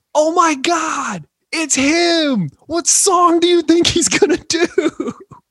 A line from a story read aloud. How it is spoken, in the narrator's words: I just start screaming